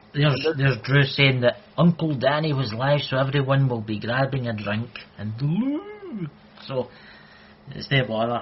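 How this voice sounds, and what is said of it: Scottish accent. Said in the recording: “my Scottish accent, some people can't understand it”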